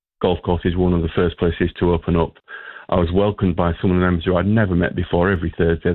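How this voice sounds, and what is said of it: Northern accent. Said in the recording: “You might be able to tell from my accent that I'm not originally from the area. I'm from further north.”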